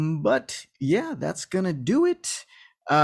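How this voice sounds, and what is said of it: Usual voice. Nothing is said of it.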